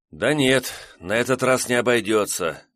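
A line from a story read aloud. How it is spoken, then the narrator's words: Deep sigh, male. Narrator (Russian): глубоко вздохнул курьер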